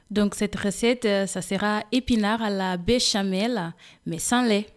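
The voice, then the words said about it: Slight Portuguese accent in French. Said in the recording (French): “vous avez un petit accent ... Il vient du Portugal.”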